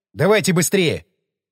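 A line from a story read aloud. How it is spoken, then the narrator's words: Sharp shout. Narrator (Russian): Прикрикнул я на Веру и на Палма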